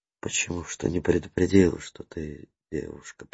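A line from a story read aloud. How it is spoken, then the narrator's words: Muttering. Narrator (Russian): пробормотал Коломейцев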